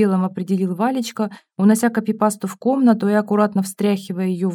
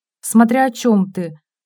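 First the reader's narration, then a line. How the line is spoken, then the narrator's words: Angry. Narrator (Russian): злобно ответила Вера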